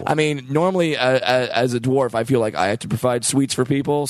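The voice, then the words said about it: Slightly worn-out, strained voice. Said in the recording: “my voice is a little shot”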